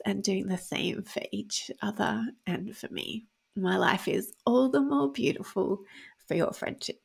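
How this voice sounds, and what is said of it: Vocal fry, tearful voice. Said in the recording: “my vocal fry ... in this episode where I've been crying”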